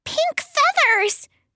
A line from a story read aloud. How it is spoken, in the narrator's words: Tweet exclaimed